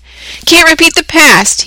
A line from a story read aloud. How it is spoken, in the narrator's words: he cried incredulously